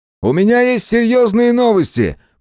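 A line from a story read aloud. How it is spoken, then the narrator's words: Muffled shout through mask. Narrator (Russian): прокричал сквозь маску Мэлори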